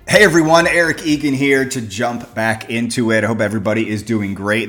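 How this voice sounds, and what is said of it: Excited, energetic voice. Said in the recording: “Hope you guys can tell by my voice. I am juiced today. I'm super excited”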